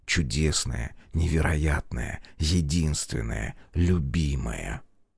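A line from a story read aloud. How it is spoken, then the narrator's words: Intimate whisper. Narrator (Russian): шептал в губы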